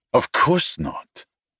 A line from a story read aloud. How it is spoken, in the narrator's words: he snapped